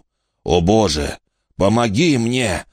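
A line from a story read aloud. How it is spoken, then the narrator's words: Groaning plea. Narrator (Russian): застонал Брэг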